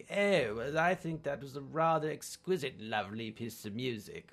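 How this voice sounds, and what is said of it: Put-on English accent. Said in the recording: “There's that English accent.”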